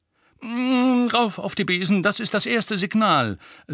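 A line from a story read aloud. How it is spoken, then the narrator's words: Said sharply. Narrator (German): sagte Lupin scharf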